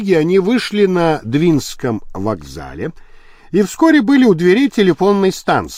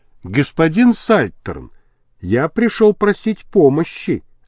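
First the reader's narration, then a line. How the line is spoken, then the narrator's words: Plain. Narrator (Russian): ответил Лабрюер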